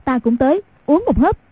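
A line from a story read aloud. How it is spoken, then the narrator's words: Startled, alarmed exclaim. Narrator (Vietnamese): Trong lòng thầm ngạc nhiên hoảng sợ, Diệt Nữ Kiếm Hàn Tiểu Quanh kêu lên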